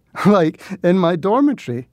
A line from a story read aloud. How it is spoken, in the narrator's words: laughed Valentine